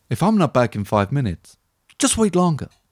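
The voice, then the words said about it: Imitates another person's voice. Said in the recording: “that little accent there... the little impression”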